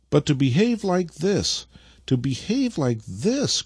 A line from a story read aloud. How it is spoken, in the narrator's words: cried the old man with unrestrained grief